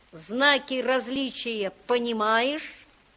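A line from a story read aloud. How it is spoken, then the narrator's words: Mocking child. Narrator (Russian): сказал мальчик насмешливо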